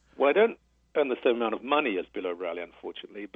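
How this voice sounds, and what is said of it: British accent. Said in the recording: “I'm from Britain originally. You can probably tell from my accent.”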